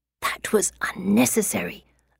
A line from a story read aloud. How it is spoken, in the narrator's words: I hiss